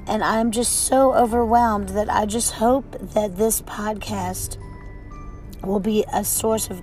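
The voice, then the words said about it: Hoarse, croaky voice from a cold. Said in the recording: “excuse my voice today. I have apparently a cold, so I don't normally sound like a frog, but today I do.”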